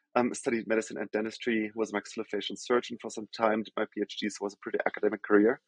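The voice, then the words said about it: German accent. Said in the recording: “As I think most of the folks can probably hear from my accent, I'm from Germany originally.”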